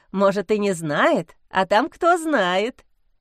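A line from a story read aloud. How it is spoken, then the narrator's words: Giggling. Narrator (Russian): хихикнула Маша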